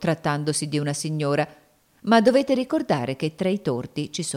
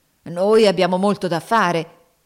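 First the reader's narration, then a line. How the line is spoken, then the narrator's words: Grumbling. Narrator (Italian): brontolavano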